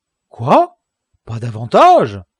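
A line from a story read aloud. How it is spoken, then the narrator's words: Exclaimed. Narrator (French): s'écria Don Quichotte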